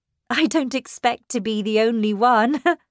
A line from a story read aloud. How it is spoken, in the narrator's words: I said, laughing